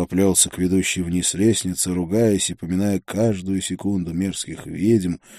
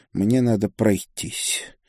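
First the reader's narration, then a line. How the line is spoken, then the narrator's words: Preacher's grumble. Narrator (Russian): Проповедник буркнул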